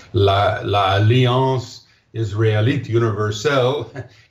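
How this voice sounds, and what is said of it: Poor put-on French accent. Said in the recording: “I'll try to say this in my French accent, poor French accent”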